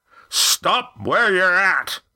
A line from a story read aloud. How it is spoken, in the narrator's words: This time Roaring Jack's voice was so loud